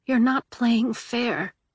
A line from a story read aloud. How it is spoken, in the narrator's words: she murmured